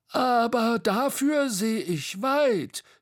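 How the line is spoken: Called out. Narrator (German): rief Bo

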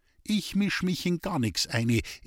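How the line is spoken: Calm reply. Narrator (German): erwiderte die Köchin ruhig

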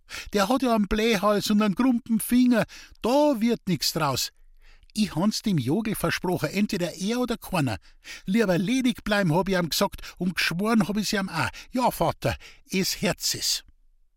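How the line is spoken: Giggled. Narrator (German): kicherte Rosel

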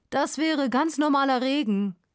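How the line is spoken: Calling out. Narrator (German): ruft er

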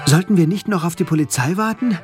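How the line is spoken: Breathless panting while running. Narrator (German): keuchte ich, während wir die Straße entlang liefen

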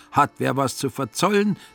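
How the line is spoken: Unsuspecting call. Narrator (German): rief der Finanzer ahnungslos

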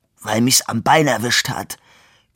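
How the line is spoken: Man growling. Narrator (German): knurrte der Mann

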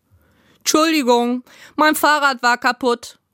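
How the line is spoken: Calling out. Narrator (German): rief sie

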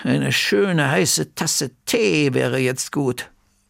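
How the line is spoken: Murmuring. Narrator (German): murmelte Bertha

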